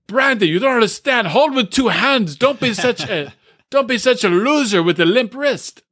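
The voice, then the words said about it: Imitates another person's voice, odd accent. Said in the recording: “I don't know what that accent is. What is that? ... That was dead on. That was spot on.”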